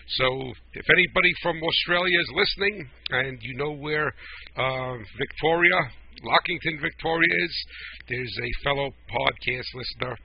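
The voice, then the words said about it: New Jersey accent. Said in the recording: “my New Jersey accent ... whether the people could understand me with my New Jersey accent”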